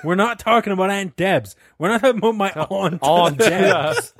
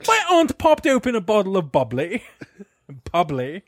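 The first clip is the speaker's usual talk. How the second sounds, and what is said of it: Posh put-on British accent. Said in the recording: “Let me stick up my pinky and drink my tea. ... He's just British now. ... people with British accents are millionaires”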